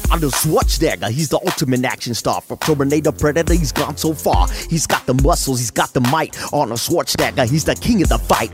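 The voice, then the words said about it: Impression of rapper E-40. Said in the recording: “my E40 impersonation”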